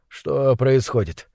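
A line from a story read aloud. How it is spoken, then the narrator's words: Hoarse, sleepy voice. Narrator (Russian): спросил он хриплым сосна голосом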